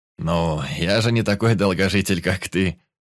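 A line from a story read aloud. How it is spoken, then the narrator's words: Laughing. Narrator (Russian): рассмеялся Патрик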